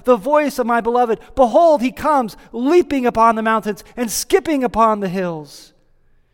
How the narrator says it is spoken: we hear her exclaiming

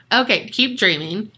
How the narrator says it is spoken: she laughs and says

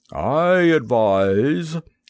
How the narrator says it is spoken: said the motor in a grumbling voice,

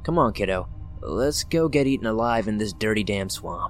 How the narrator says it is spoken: Mom grunted

